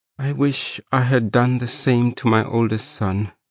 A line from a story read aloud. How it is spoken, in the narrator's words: the strange woman said in a regretful voice